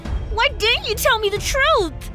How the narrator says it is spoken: screamed

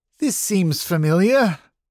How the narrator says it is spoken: Matt groaned

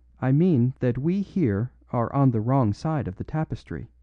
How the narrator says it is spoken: answered Father Brown

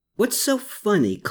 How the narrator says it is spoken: Klaus quietly cried out

